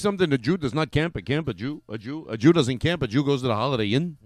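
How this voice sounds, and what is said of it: Imitates another person's voice. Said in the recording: “Jackie Mason ... It's a lousy impression.”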